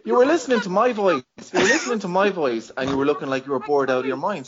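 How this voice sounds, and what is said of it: Irish accent. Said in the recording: “I have a feckin' Irish accent too”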